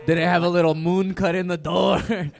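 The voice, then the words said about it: Put-on Italian accent sounding Mexican. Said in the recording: “What was that Italian accent you just did? ... Sounded awfully Mexican to me”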